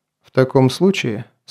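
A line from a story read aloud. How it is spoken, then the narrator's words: Calm. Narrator (Russian): спокойно продолжил Грон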